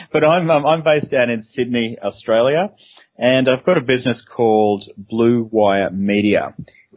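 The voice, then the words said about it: Australian accent. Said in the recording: “I'm an Aussie, as many listeners would be able to tell from my unusual accent.”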